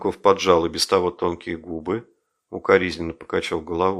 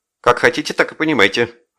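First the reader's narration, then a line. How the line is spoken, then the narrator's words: Sharp answer. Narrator (Russian): ответил Груздев резко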